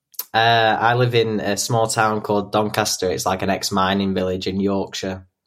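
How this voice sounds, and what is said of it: Northern English Yorkshire accent. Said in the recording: “I love your accent.”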